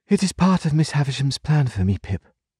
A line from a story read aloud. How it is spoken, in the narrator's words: said with a sigh, as if she were tired